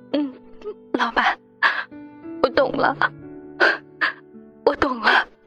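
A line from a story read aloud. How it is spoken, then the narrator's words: Tearful murmur. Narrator (Chinese): 林阳顿时泪流满面，喃喃自语道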